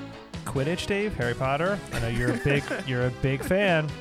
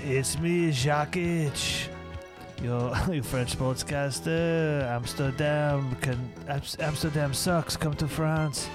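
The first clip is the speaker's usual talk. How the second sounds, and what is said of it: Put-on French accent. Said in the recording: “With your French sportscast, oui, oui ... ending the accent”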